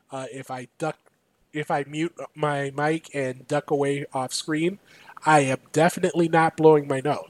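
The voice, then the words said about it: Sick, unwell-sounding voice. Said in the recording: “I sound weird. I am fighting through a bit of illness right now.”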